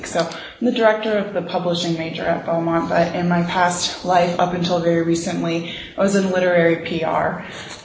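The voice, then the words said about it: Scratchy voice from overuse. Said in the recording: “my voice is scratchy, it's because I am just started a new job as a full-time professor ... I've been talking nonstop”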